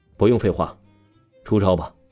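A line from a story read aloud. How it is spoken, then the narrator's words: Cold. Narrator (Chinese): 黄鑫目光冷冷的盯着王峰，说道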